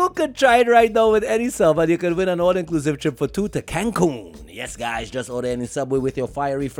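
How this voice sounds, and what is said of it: Usual voice. Nothing is said of it.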